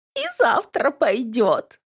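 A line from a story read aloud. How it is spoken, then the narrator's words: Giggling. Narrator (Russian): хихикает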